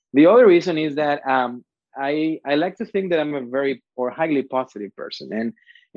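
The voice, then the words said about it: Strong foreign accent. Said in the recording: “a cool guy with a strong accent”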